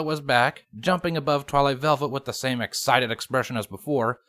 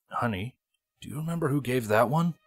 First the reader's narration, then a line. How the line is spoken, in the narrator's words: He whispered quietly to his wife